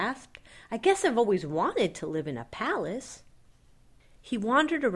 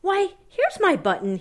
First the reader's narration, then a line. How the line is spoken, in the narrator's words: he cried